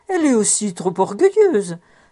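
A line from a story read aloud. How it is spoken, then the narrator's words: Exclamation. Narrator (French): s'écria la mère Orchel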